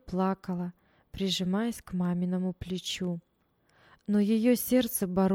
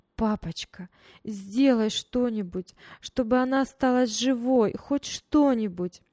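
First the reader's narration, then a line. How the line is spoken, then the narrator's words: Loud sobbing plea. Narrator (Russian): Таня громко рыдала и просила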